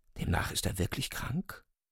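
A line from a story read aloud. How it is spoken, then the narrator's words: Dismayed whisper. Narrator (German): flüsterte Ryuchin bestürzt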